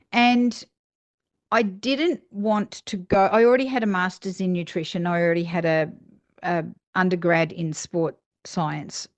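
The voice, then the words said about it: Australian accent. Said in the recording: “You can tell that I'm an Australian and I've got that strange accent.”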